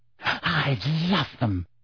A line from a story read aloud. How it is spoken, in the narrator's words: breathed Rita